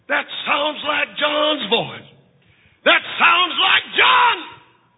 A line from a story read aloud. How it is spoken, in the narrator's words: she shouted to the children